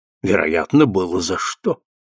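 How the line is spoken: Mumbled. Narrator (Russian): пробормотал Джессинт

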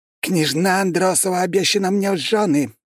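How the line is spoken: Hoarse wheezing voice. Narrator (Russian): просипел индус

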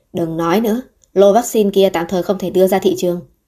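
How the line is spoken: Cold angry snort. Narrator (Vietnamese): Ông ta tức giận hừ lạnh nói

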